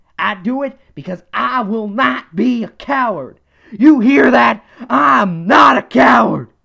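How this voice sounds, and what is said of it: Imitates another person's voice, strained. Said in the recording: “that Alex Jones voice actually does hurt my throat after a while”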